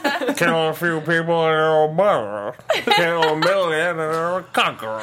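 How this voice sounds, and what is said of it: 1930s gangster accent. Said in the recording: “That's a different accent altogether ... That was like a 30s gangster accent right there.”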